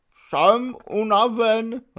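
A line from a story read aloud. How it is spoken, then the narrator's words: Tragic voice. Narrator (Czech): řekl tragickým hlasem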